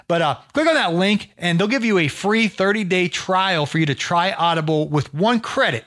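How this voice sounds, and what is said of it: Worn, strained speaking voice. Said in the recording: “Excuse my voice there, man. We've had a podcast marathon this week.”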